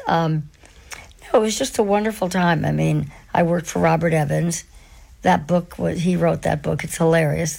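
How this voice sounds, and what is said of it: Hoarse, losing voice. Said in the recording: “my voice seems to sound like The Exorcist ... I'm kind of losing my voice”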